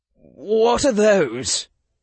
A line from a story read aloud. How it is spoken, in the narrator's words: His voice started to waver